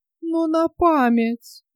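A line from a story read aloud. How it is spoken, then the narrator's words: Old woman's plaintive wail. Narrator (Russian): жалобно завопила старуха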